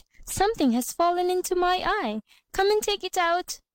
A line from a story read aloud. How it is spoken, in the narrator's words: she cried